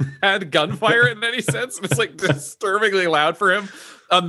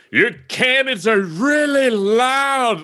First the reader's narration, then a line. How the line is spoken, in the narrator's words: he'll just yell at the others